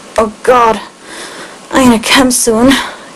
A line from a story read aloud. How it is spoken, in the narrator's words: gasped Stephen